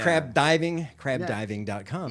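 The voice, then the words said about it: Nasal Chicago accent. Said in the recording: “I was so Chicago there for a second... do you do a Chicago like accent?... Like it's like an L mixed with a D on that... Nasal.”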